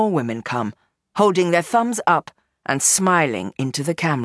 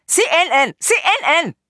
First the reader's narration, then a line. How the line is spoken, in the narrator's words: they shout to one another